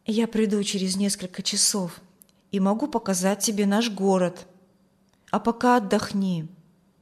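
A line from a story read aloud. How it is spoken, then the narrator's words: Quiet. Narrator (Russian): Вильям тихо сказал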